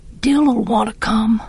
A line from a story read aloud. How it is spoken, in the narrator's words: I whispered